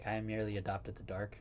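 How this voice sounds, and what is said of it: Imitates a movie villain's voice. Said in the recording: “my Bane impression”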